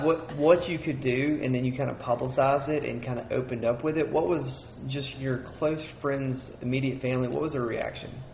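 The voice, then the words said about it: Southern twang, Mississippi accent. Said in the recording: “I'm Mississippi. It's as Southern as you can get ... hear the twang in my voice.”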